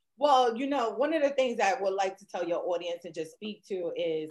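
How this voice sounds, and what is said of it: New York accent. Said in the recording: “that accent you got from New York”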